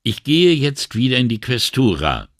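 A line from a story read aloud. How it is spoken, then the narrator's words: Called over shoulder. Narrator (German): rief er über die Schulter zurück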